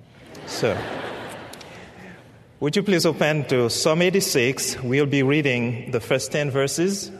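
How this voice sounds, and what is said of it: Speaks with a noticeably different accent. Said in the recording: “my accent is different from yours”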